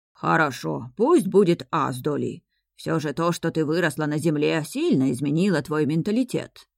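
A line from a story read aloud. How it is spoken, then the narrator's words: Displeased grumbling, owl. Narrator (Russian): недовольно ворчала сова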